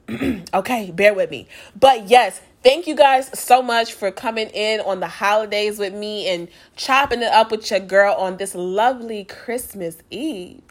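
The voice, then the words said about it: Sick-sounding, low-energy voice. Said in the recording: “I have been fighting a cold these past couple days ... So I'm giving y'all all the energy that I have. You probably can hear it in my voice”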